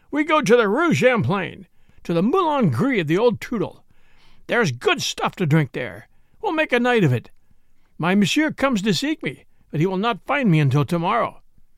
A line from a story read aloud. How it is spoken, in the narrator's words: he cried